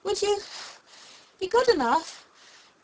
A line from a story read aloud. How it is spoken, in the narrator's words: Alice panted out, after running a little further